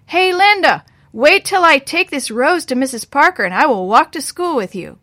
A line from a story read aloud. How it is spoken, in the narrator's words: he yelled across the street